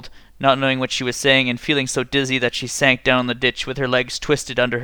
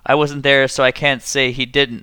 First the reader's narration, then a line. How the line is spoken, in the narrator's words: the misfit said